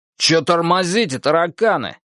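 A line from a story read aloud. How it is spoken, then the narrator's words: Barked, soldier. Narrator (Russian): рявкнул второй рядовой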